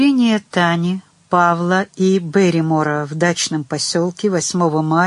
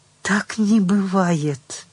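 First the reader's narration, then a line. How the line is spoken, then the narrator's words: Whispered. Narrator (Russian): прошептала она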